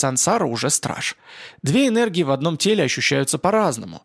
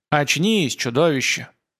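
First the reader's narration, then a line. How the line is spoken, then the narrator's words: Growling undertones. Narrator (Russian): В голосе судьи слышны рычащие нотки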